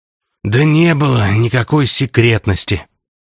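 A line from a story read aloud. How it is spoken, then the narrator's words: Groaning. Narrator (Russian): тоже простонал маркиз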